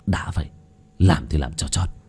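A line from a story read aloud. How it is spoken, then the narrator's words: Harsh stressed voice. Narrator (Vietnamese): Bác cổ gằn giọng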